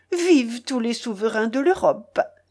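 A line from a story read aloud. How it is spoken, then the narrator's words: Exclaimed. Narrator (French): s'écria le postillon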